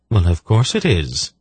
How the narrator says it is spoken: she replied calmly

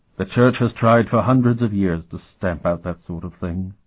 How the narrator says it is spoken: Dolmant said sadly

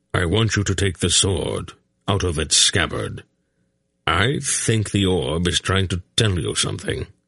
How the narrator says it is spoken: said in a level voice

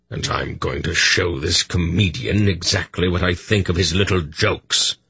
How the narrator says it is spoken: Belgarath growled

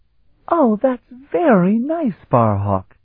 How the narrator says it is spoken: she exclaimed happily

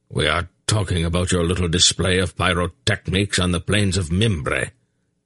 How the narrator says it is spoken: Belgarath replied icily

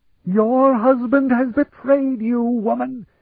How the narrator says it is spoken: he shrieked at Aelana

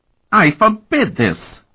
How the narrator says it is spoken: Markova howled

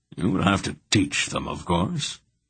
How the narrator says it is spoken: Belgareth said wearily

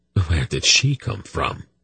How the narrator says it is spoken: Silk breathed

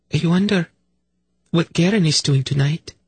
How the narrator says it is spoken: she said wistfully

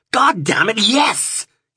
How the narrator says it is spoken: roared

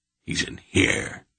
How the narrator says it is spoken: he murmured with satisfaction

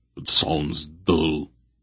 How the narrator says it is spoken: Barak grunted

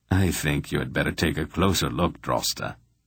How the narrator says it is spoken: Silk advised with a dry little chuckle

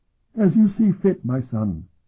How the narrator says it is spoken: Arasham said eagerly

